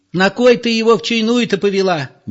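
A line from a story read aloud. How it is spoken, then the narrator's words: Shrill, hysterical woman. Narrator (Russian): визгливо спрашивала членораздельная Зоя, женщина вполне истеричная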